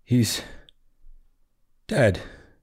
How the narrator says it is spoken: Watcher muttered

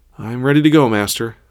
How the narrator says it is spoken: Tara panted

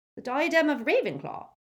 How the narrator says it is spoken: squeaked Flitwick

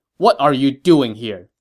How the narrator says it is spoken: Ma Chao said sternly

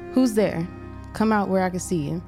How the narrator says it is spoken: called out

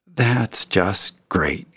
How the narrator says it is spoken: muttered

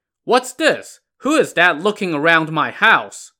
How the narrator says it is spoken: Shi Jin shouted

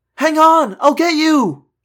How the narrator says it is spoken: I screamed

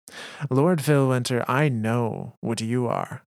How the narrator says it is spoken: Timmer said with a laugh in his voice

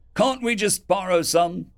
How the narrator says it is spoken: Someone yelled back

